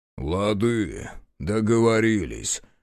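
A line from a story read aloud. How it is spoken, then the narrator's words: Booming. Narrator (Russian): прогудел Мороз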